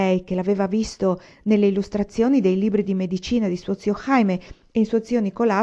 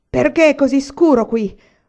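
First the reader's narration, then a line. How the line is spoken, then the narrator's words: Booming earthquake roar. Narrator (Italian): ruggì col suo vocione da terremoto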